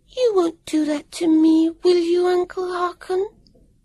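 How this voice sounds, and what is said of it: Small lisping little-girl voice. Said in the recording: “in a little lisping voice”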